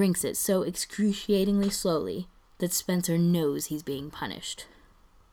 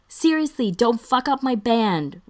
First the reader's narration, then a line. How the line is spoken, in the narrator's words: Ryan yells after him